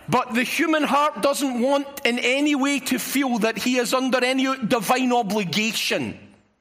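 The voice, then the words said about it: Scottish accent. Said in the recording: “I've got a Scottish accent”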